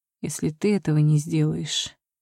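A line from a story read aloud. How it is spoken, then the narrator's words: Quiet promise. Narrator (Russian): тихо пообещал мой жених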